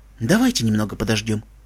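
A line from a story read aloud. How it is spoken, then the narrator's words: Softly. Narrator (Russian): мягко сказала Селестия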